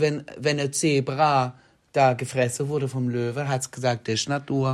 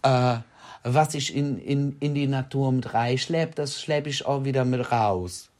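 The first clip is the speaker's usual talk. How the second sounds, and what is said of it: Put-on regional German dialect. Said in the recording (German): “kriege ich es im Dialekt hin? ... der Dialekt ist falsch”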